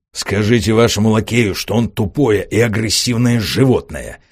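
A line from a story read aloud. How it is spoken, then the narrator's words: Hissing through speaking tube. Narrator (Russian): раздалось в другой трубке шипение инженера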